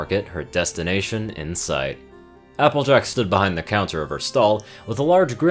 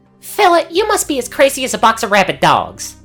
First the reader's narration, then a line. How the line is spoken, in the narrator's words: snapped